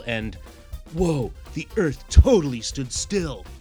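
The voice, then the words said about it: Bad Keanu Reeves impression. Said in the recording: “that atrocious Keanu impression”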